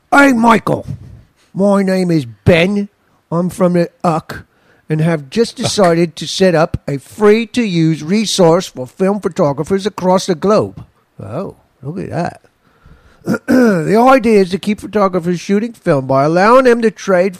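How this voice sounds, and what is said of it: Put-on British accent. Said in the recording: “you want me to be racist with the UK accent? ... Should I do it in a Phil Collins South Park voice?”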